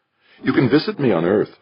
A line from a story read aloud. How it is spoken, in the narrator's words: said brightly